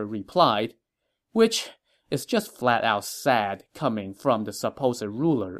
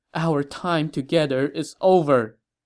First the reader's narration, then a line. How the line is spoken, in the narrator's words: The empress cried and said